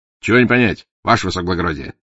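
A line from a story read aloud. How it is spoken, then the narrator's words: Cheerful reply. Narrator (Russian): бодро отвечал Порох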